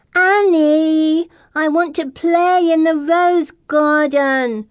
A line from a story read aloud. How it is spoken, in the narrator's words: she whines